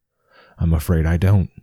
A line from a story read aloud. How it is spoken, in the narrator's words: replied Bedweir, his voice shaking as he fought to suppress a chuckle